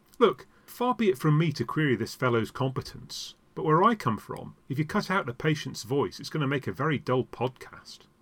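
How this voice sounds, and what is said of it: Remarkable accent with flat vowels. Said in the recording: “I should like to keep the accent. It really is quite remarkable. ... you can have the flat vowels.”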